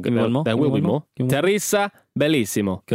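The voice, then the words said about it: Put-on Italian accent. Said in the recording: “There's the Italian accent we got ridiculed for a few weeks ago”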